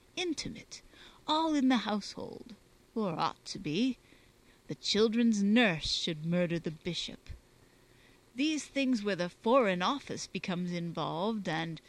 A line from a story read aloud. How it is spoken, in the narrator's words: chuckling